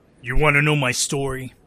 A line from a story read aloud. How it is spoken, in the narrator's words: He growled